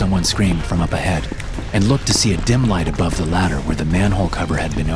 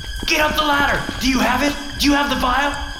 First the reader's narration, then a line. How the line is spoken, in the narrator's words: shouting down at him